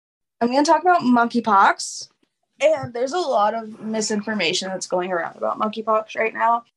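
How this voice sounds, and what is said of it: Tired, grainy voice. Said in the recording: “I'm tired ... my voice is a little bit more grainy than usual because I have not slept well”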